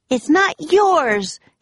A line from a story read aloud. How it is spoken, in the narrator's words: shouted Annie